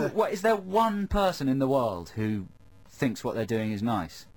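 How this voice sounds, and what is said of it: Usual voice. Nothing is said of it.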